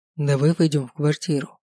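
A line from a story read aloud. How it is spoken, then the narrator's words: Soft. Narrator (Russian): мягко произнес я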